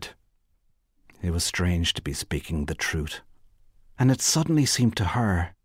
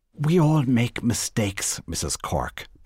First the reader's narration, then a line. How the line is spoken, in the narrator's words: Bernice said coldly